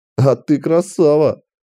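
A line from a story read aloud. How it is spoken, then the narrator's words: Chuckling. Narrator (Russian): хохотнул Волт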